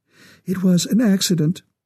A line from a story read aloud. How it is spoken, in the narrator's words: her voice trembled